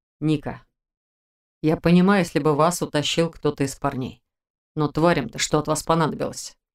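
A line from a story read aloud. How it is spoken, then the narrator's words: Casual, matter-of-fact. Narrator (Russian): Вполне будничным тоном поинтересовался у меня магистр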